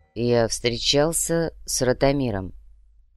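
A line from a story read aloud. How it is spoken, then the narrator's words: Slow reply. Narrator (Russian): медленно ответил Мечислав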